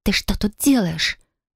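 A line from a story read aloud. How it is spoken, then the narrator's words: Hissing like a doused cat. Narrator (Russian): Зашипела она, как кошка, которую окатили водой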